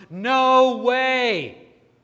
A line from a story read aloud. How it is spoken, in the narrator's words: yells at the top of her lungs